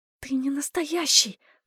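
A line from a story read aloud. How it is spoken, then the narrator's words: Whispered. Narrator (Russian): прошептала я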